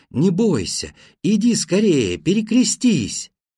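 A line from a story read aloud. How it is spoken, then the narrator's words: Joyful calling. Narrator (Russian): Бабка радостно звала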